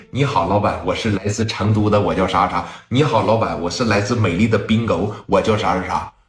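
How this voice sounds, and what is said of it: Put-on southern Chinese accent. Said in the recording (Chinese): “每一个都是南方口音。”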